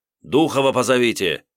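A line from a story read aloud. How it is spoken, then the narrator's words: Barking roar. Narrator (Russian): рявкнул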